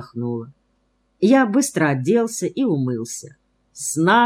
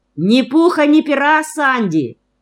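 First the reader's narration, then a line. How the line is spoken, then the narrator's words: Shouting after someone. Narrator (Russian): крикнула мне вслед Ата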